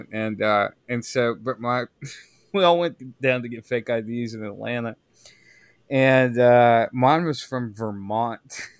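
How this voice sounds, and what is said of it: Southern American accent. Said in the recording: “I grew up in the South, if you can't tell from my accent.”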